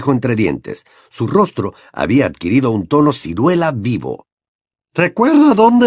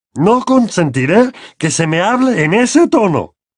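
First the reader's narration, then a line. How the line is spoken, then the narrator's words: Trembling with anger. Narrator (Spanish): exclamó Tío Vernon, temblando de ira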